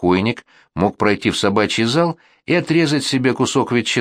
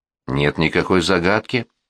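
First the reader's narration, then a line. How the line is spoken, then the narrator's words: Calm answer. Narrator (Russian): ответил Теллер спокойно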